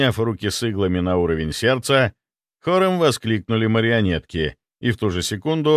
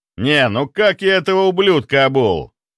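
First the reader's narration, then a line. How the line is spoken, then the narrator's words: Loud. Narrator (Russian): громко произнес Чарльз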